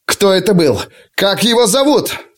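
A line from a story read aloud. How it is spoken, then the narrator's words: Through gritted teeth. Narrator (Russian): спросил принц сквозь зубы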